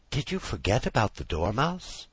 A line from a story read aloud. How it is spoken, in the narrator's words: said timidly